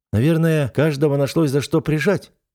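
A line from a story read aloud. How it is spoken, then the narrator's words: Snorting remark. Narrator (Russian): хмыкнул я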